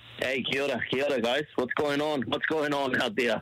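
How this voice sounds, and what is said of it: Put-on Australian accent. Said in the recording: “Why do you sound Australian for? ... Come back with an accent.”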